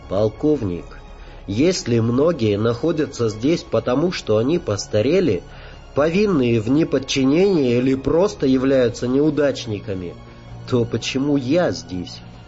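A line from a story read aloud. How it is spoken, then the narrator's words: Plain. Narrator (Russian): спросила она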